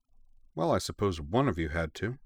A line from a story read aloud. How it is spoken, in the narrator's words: said June dryly